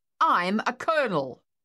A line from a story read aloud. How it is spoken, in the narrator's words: the officer stated loudly